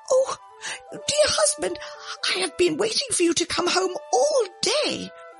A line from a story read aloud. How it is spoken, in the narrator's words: the old woman cried out